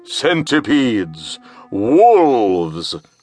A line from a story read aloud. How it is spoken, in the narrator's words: bellowed the monster